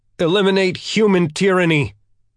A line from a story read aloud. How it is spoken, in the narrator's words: the ETO fighters shouted as one